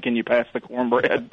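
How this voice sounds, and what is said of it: Put-on Southern accent. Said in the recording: “With a southern accent.”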